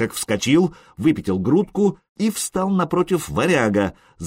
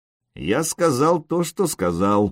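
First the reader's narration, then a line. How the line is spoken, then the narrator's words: Through gritted teeth. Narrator (Russian): процедил сотник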